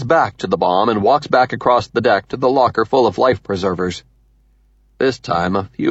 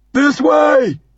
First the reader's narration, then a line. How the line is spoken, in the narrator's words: shouts